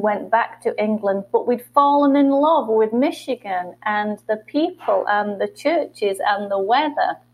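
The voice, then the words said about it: British English accent. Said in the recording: “as long as you can understand my accent... the British or English accent”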